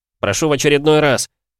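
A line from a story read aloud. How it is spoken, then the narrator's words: Angry shout through teeth. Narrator (Russian): крикнул он, скрипя зубами от злости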